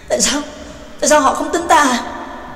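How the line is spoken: Trembling question. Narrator (Vietnamese): Trác Lỗ run run rộng hỏi

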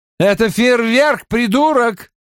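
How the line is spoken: Shouting woman. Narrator (Russian): крикнула женщина

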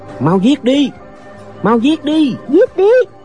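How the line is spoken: Two shouting together. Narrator (Vietnamese): Lệnh Hồ Xuân và Doanh Doanh cùng la lên

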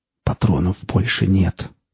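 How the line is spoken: Whisper. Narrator (Russian): прошептал свободовец

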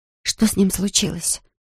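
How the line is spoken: Whispered question. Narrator (Russian): шепотом спрашиваю я

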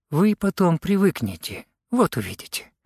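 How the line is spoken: Calm. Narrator (Russian): сказала она спокойно

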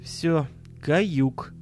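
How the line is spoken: Strangely calm tone. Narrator (Russian): до странности спокойным тоном произнес Миша

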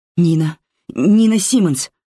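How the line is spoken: Stammering. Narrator (Russian): заикаюсь я

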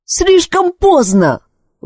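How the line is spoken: Shout. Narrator (Russian): выкрикнула Элис

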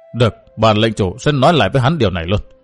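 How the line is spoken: Calm, cold voice. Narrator (Vietnamese): hắn bình tâm tính trí, lạnh lùng nói

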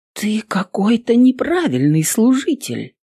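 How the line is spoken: Shocked whisper. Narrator (Russian): потрясенно прошептала Эвелин

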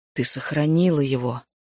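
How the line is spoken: Breathed out. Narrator (Russian): выдохнул

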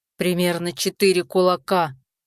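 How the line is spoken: Growl. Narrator (Russian): прорычал Рамбалак

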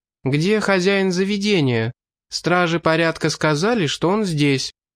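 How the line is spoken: High ringing female voice. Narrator (Russian): одна из гетер высоким звучным голосом спросила

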